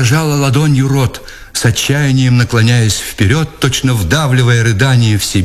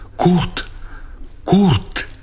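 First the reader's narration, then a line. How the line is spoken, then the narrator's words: Breathless cry-whisper. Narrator (Russian): она вскрикнула задохнувшимся шепотом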